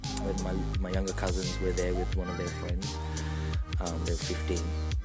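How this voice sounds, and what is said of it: Australian accent. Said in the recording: “Your accent is really Aussie... you sound Aussie”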